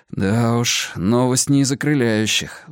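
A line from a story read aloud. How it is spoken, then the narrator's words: Sighing. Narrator (Russian): вздохнул я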